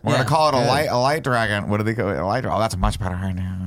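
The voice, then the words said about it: Imitates another person's voice. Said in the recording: “That's a good impersonation.”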